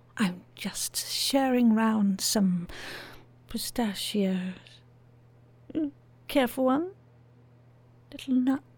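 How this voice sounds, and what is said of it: Whispering. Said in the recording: “can the whispering.”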